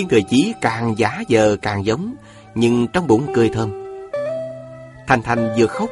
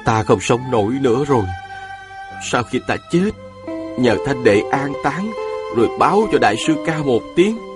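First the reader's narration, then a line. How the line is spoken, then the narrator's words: Feigned dying moan. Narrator (Vietnamese): chàng rên rỉ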